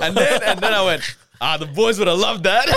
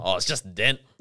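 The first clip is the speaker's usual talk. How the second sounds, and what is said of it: Put-on Australian accent. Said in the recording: “in an Aussie accent”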